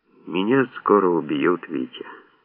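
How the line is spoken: Sad. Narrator (Russian): Серега грустно сообщил

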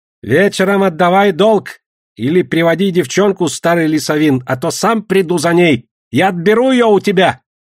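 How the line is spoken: Distant shout. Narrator (Russian): крикнул он из кустарников

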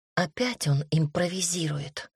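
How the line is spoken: Whisper into ear. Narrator (Russian): прошептала я, наклонившись к уху

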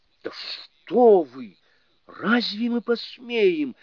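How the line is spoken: Frightened goddess answering. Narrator (Russian): испуганно отвечала богиня

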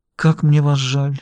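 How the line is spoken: Soft female voice. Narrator (Russian): мягко произнесла она

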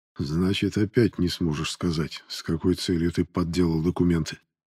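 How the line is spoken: Plain. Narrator (Russian): спросил Воронцов

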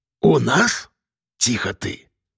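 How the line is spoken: Hiss. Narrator (Russian): прошипел

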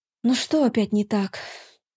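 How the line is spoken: Weary question. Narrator (Russian): устало спросила я

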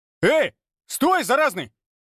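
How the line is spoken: Shout. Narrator (Russian): выкрикнул один из наемников

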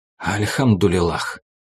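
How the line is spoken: Mumble. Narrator (Russian): пробормотал Азиз

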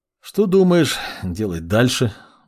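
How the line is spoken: Sighing question. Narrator (Russian): вздохнув, спросил маг

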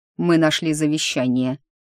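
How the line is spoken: Grim confirmation. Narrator (Russian): подтвердил мрачно

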